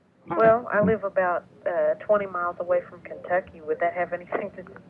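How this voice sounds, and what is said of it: Mild Southern American accent. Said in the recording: “you have the southern accent ... Isn't this kind of southern? ... Just a little more southern than Al's.”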